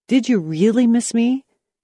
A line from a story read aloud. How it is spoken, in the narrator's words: His large brown eyes lit up eagerly as he replied